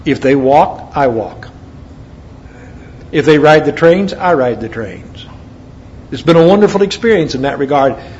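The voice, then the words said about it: American accent. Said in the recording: “that American accent”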